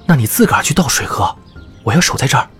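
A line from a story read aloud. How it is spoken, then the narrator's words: Quiet voice. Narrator (Chinese): 丁涛小声说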